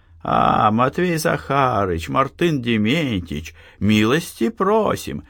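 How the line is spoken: Nasal, feigned friendliness. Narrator (Russian): загнусавил Демьян, стараясь изобразить приветливость

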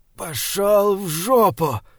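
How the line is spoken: Strained breathless exhale. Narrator (Russian): с трудом выдохнул Эдиранин

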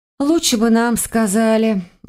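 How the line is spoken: Sighed. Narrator (Russian): вздохнула я

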